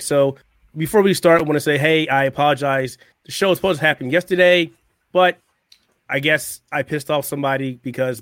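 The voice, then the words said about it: Hoarse, strained voice. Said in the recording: “my voice and my entire body decided it wanted to shut down... I'm still a little hoarse, having a little problem speaking out”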